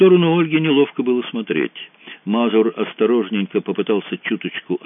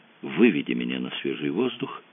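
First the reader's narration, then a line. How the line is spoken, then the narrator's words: Whispered in ear. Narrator (Russian): шепнула на ухо Мэгги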